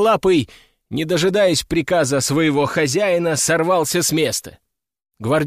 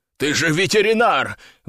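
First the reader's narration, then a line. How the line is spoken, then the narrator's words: Desperate shout. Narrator (Russian): в отчаянии крикнул он мне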